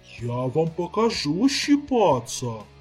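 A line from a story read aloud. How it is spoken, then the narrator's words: Indignant roar. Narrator (Russian): Возмущенно проревел ящер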